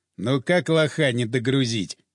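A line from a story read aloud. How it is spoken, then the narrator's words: Chuckling. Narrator (Russian): хохотнул Капрал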